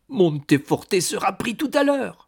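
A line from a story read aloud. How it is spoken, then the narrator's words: Monk exclaiming. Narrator (French): s'écria le moine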